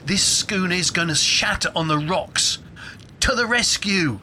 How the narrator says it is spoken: Juniper yelled

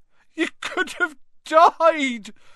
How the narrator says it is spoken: sobbed Hagrid

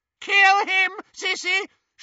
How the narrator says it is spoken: shrieked Bellatrix

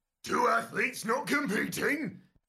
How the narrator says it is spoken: You groan

